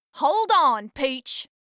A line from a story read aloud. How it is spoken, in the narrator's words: Eden grunted in her strong southern accent